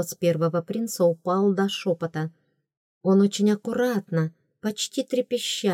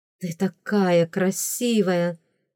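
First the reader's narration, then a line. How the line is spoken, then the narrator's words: Breathless exclamation. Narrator (Russian): выдохнул первый принц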